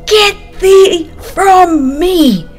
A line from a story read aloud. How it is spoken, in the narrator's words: he cried